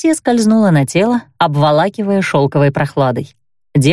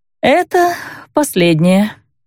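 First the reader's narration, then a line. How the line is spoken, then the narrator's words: Moaning woman. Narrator (Russian): простонала женщина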